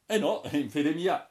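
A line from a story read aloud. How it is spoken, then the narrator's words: Young man's exclamation. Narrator (Italian): esclamò il giovane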